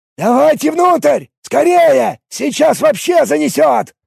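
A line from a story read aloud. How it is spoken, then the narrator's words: Male shout. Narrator (Russian): крикнул он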